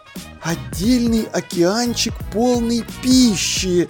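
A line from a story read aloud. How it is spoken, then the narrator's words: Spellbound whisper. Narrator (Russian): завороженно шептал Думинг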